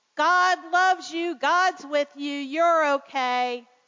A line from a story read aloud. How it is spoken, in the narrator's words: Dad hollered back